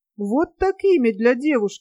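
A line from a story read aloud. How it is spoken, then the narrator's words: Exclaimed. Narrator (Russian): воскликнула Диана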